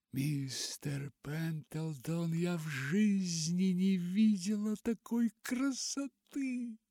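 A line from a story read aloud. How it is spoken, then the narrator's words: Whisper, then sudden laugh. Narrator (Russian): прошептала и вдруг рассмеялась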